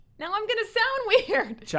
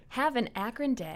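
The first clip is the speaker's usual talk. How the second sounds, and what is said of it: Put-on radio announcer voice. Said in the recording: “I tried to do my best radio voice for you”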